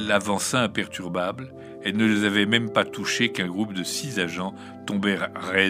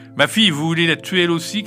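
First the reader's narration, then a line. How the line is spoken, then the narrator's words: Shouted. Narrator (French): cria Gilda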